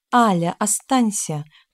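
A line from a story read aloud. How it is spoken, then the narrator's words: Tender, plaintive plea. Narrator (Russian): попросил китаец то ли ласково, то ли жалобно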